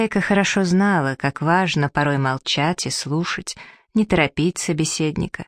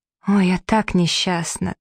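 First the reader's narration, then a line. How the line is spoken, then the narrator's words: Despairing moan. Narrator (Russian): простонала Стивен в отчаянии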